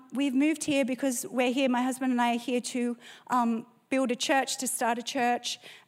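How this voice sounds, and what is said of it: Australian accent. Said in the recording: “I can hear your Australian accent.”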